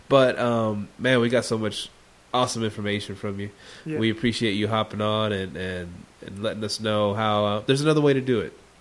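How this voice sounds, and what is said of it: Congested, sick-sounding voice. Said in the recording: “I have a bit of a cold. I'm struggling through this a little bit.”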